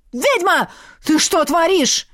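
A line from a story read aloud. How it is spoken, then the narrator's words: Yelling. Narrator (Russian): завопил эльф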